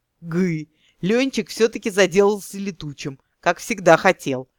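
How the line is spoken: Chuckling. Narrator (Russian): хохотнул Вольфович

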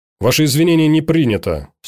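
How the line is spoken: Stern judge. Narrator (Russian): строго сказал судья

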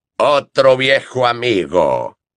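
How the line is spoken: Growling. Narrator (Spanish): gruñó Moody

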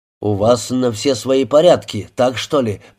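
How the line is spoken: Grumbling. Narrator (Russian): проворчал Мартина

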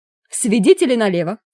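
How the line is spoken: Barked. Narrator (Russian): гаркнула мисс Сьюзан

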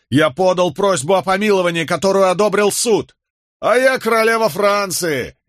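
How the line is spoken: Mocking shout. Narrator (Russian): издевательски крикнул какой-то остряк

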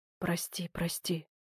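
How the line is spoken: Man whispering incessantly. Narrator (Russian): не прекращая шептал мужчина

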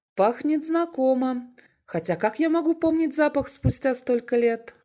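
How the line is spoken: Chuckling. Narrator (Russian): он хохотнул

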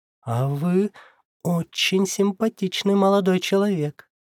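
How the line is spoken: Cooing. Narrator (Russian): проворковала

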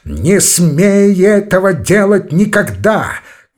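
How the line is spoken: Shout. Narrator (Russian): крикнул он

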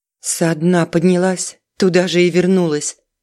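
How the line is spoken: Through gritted teeth. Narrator (Russian): процедила она

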